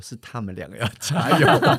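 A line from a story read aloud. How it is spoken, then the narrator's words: Smiling. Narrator (Chinese): 他爸爸笑一下，说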